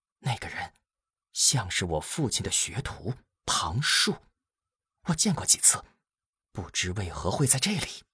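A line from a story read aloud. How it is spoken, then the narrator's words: Soft, quiet. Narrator (Chinese): 荀音 轻声对齐武说道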